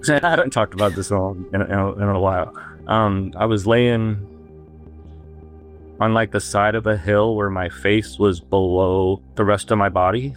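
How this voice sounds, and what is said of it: Emotional, choked-up voice. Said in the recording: “I might get a little emotional here.”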